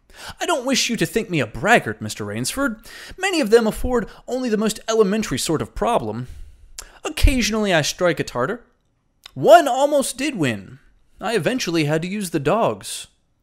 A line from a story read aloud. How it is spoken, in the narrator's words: he added hastily